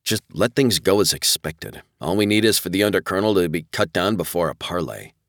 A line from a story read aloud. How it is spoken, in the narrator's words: Rev muttered under his breath